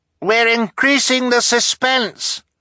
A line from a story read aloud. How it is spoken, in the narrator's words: Klaus cried back desperately